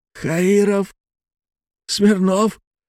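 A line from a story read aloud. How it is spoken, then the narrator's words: Hoarse wheeze. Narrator (Russian): просипел старший комиссар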